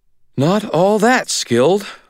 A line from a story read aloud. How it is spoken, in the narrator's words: Molly said, panting, satisfaction in her voice